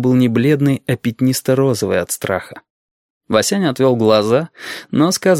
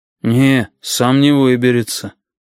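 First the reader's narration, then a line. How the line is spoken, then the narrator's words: Sighed. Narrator (Russian): вздохнул Хрын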